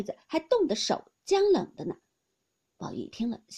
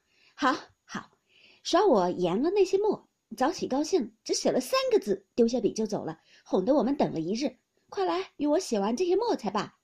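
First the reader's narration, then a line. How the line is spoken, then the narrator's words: Laughing. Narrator (Chinese): 晴雯笑说道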